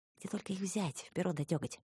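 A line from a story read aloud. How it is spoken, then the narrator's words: Sighing boy. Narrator (Russian): вздохнул мальчишка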